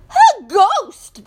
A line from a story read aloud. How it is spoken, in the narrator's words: screamed